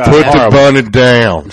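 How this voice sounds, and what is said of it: Bad Southern accent, Nick Cage. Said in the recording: “Here's another horrible Southern accent. Nick Cage, Con Air ... Fucking terrible.”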